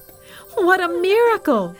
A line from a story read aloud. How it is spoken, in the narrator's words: the people shouted